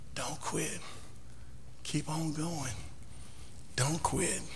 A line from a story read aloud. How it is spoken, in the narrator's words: the master, and he whispers